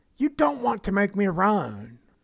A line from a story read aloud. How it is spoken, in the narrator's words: shouting